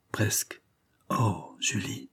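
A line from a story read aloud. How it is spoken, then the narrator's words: Young man murmuring. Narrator (French): murmura le jeune homme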